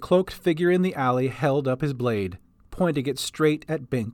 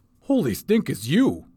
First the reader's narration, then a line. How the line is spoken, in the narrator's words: he blurted